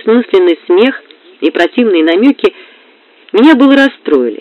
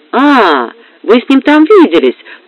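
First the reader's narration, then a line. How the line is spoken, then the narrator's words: Triumphant question. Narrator (Russian): торжествующим тоном осведомилась Розали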